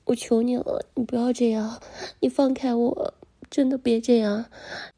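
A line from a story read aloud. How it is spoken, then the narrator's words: Crying, pleading. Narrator (Chinese): 我就一边哭一边求他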